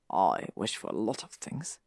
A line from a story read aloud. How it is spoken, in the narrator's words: Draco muttered